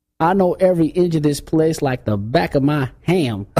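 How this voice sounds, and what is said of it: Nasal imitated accent. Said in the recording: “Why are you talking through your nose ... I'm trying to do it with his ... accent.”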